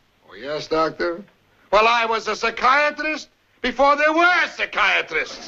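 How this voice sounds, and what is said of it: Phony put-on accent. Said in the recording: “Phony accent and all... How dare you insult my accent”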